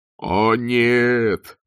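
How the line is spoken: Groaning. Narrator (Russian): простонал сержант Колон

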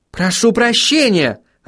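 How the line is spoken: Irritated call. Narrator (Russian): раздраженно окликнула Сахариса

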